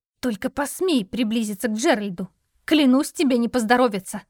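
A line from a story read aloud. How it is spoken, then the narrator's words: Hissing. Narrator (Russian): прошипела она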